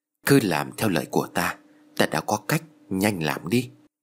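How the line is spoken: Whispering. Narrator (Vietnamese): thầy Tàu nói khẽ với Tư và Kha

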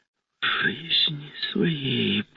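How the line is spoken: Whisper. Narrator (Russian): прошептала

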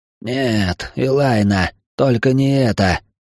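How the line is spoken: Strained wheeze, pinned down. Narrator (Russian): прохрипел Артемилар, которого Ториан оседлал сверху, не давая дернуться

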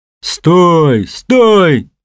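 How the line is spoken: Worker yelling. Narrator (Russian): заорал рабочий

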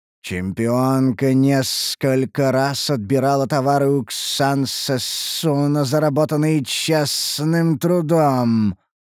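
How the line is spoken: Displeased hiss. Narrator (Russian): поведал ящер, недовольно зашипев

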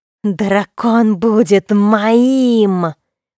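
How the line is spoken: Growling. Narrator (Russian): прорычала она

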